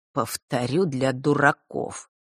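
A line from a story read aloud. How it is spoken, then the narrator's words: Ironic, through gritted teeth. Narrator (Russian): с иронией процедил он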